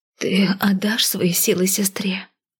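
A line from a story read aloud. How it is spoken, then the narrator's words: Breathed out. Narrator (Russian): выдохнула черноволосая девушка призраку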